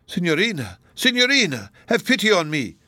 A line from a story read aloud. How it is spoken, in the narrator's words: cried Donatello